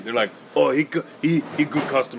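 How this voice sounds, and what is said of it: Put-on mixed foreign accent. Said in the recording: “I don't even know what that accent is... It's a mix between Mexican and Asian.”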